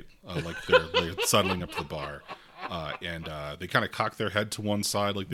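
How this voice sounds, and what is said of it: Usual voice. Nothing is said of it.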